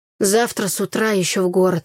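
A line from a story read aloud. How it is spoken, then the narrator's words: Grumbling. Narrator (Russian): проворчал Игорь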